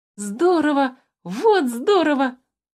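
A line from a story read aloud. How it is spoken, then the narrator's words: Exclamation. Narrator (Russian): воскликнул Тимюк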